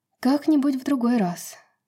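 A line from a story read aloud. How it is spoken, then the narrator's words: Sorrowful sigh. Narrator (Russian): горестно вздохнула Брайс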